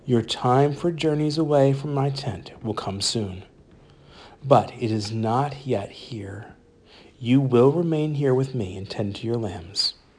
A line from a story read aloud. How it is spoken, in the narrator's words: he said evenly